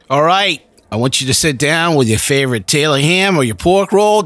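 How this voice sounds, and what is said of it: Put-on New Jersey accent. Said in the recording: “the New Jersey accent that he's been working on for quite some time ... Perfecting it over years.”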